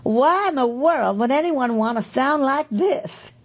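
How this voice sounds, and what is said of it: Imitated thick Southern Tennessee drawl. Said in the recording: “she makes no attempt to hide her drawl, which is thick as molasses ... That's just my attempt to imitate her”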